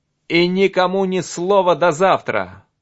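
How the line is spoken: Shouted. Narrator (Russian): крикнул все еще неподвижному Оливье

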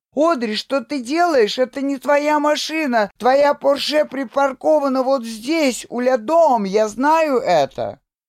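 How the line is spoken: Screamed. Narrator (Russian): я закричала

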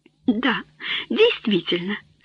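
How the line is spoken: Laughing. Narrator (Russian): смеясь сказала Клодия

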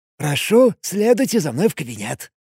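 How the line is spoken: Obsequious hiss. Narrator (Russian): подобострастно прошипел Сушелис

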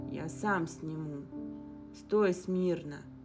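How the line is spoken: Muttered. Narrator (Russian): пробормотал Инг

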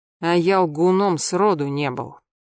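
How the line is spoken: Very grim, ungracious retort. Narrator (Russian): мрачно, чрезвычайно, даже мрачно и нелюбезно парировал Мамонтов

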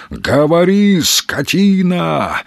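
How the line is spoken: Yelling. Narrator (Russian): орал топор

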